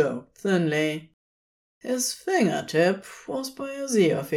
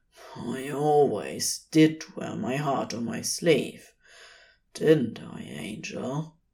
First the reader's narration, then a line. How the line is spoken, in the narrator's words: murmured